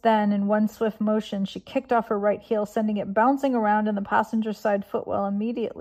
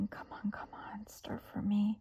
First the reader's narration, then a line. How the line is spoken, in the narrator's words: softly pleading